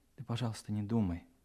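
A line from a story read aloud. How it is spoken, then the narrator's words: Mumbled. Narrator (Russian): пробормотала она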